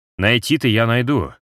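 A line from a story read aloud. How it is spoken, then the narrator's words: Plain. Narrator (Russian): ответил он Тибериуса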